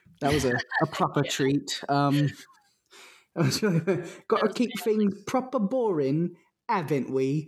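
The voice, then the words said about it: Put-on Cockney British accent. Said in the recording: “that Cockney accent ... trying out her British accent”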